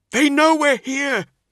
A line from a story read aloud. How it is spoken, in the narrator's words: he cried